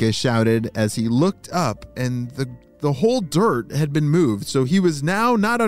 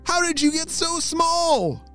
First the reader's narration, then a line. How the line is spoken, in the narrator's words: Mackenzie shouted